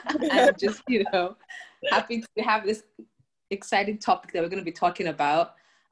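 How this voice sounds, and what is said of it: Excited, energetic voice. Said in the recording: “you can tell from my voice, I'm very excited”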